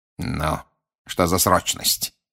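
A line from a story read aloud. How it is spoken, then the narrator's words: Hissing. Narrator (Russian): прошипел Снег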